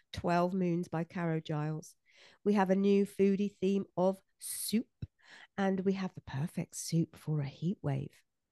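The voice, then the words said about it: Altered, husky-sounding sick voice. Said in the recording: “I have a very sexy voice today. ... I don't like the COVID that's gone with it. I do have COVID.”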